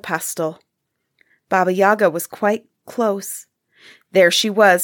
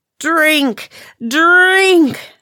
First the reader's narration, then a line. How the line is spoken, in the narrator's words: screamed at them